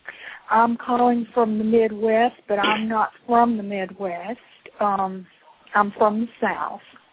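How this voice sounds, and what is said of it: Tennessee Southern accent. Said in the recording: “I thought I detected a Tennessee accent.”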